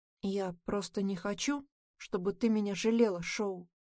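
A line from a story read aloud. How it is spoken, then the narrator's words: Boy's quiet confession. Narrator (Russian): тихо признается мальчик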